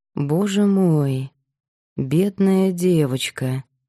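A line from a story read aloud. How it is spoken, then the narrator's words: Slow speech. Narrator (Russian): медленно проговорила Марина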